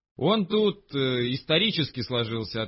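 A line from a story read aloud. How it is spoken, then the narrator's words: Plain. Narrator (Russian): ответил я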